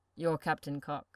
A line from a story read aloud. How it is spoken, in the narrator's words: Louis hums, seems to hesitate before clearing his throat and mumbling